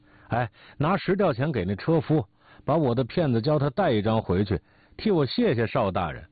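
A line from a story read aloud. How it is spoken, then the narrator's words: Laughing, calling out. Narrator (Chinese): 哈哈大笑，又叫学徒的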